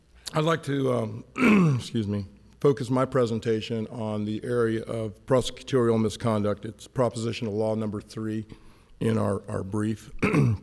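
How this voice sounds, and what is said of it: Hoarse voice. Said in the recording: “I've had a real bad head cold, so I'm kind of hoarse”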